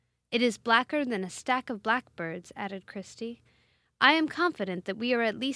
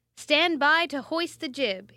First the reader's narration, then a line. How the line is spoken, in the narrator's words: shouted